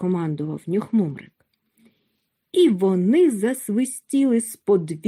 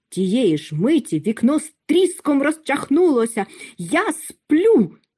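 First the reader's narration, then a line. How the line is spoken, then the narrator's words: Angry shout. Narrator (Ukrainian): сердито закричав Чмих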